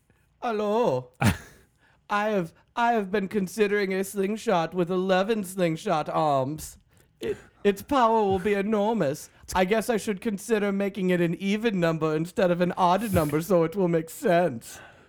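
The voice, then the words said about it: Exaggerated comic German accent. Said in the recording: “you're using your generic hilarious German accent as opposed to his completely different but equally hilarious German accent”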